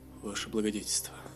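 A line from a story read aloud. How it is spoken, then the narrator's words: Whisper. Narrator (Russian): прошептал Бовар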